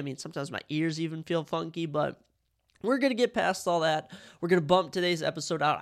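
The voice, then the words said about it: Congested, stuffy-nosed voice. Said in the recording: “If you can probably tell by my voice, I am a bit congested.”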